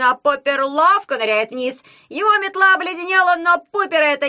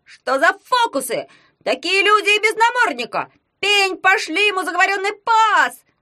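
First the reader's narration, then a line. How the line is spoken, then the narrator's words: Yelling over blizzard. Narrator (Russian): завопил Ягун, перекрикивая поднявшуюся вьюгу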